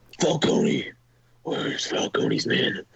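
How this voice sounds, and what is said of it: Batman character voice. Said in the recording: “good Batman impression”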